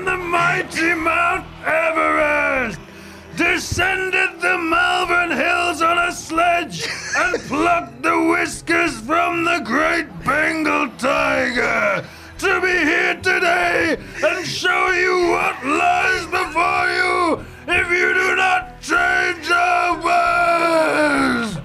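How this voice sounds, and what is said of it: Shouting. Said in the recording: “Why are you shouting?”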